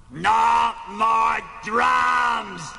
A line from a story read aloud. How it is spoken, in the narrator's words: Animal bellowed